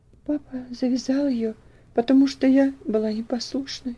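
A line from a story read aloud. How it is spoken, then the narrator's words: Girl sobbing. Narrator (Russian): ответила девочка, не сумев сдержать всхлипывание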